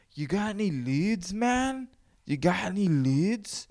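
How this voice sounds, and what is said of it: Imitated stoner voice from Cheech and Chong. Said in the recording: “do the voice of that fucking the chick from Cheech and Chong ... I'm turning the accent. I'm fucking it up.”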